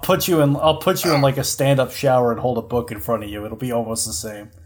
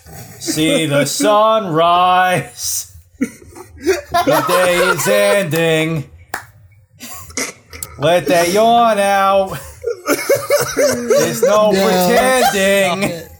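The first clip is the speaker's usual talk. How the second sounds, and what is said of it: Singing in thick New York accent. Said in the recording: “sing BB's theme in a very thick New York accent”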